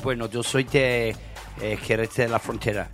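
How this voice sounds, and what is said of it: Spanish spoken with English accent. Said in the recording (Spanish): “De ahí el acento que tiene usted, ¿no? ... mi acento es porque, obviamente, yo soy inglés.”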